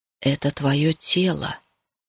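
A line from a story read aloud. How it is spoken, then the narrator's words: Quiet. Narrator (Russian): тихо сказал он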